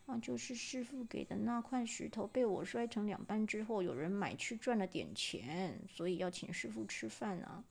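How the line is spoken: Very quiet, boy. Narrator (Chinese): 少年小小声的说

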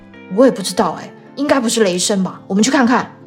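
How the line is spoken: Mumbling. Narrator (Chinese): 汤姆嘟囔着说

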